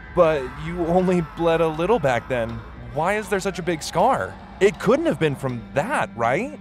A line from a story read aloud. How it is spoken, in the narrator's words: I said with a trembling voice and a slight laugh